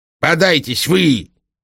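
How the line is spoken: Angry shout. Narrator (Russian): сердито крикнул государь

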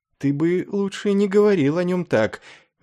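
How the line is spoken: Hostile reproachful whisper. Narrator (Russian): враждебно и укоризненно прошептала она

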